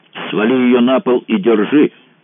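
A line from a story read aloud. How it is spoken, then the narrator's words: Deafening bark. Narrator (Russian): рявкнул он Кацубе так, что у самого заломило в ушах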